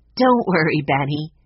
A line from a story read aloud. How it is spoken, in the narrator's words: Jesse laughed